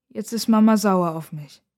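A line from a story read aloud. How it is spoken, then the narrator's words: Sad. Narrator (German): sagt ihr Bruder traurig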